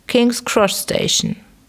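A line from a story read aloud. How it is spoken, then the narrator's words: Called out. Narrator (German): rief dem Kutscher zu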